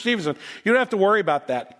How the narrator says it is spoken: he said quickly

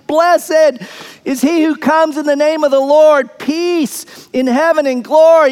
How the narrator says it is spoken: the crowds are shouting

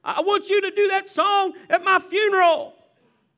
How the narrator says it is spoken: she's in the back, and she yells

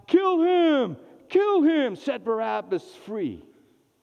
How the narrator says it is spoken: the whole crowd cried out

